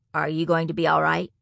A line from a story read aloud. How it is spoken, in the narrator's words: asked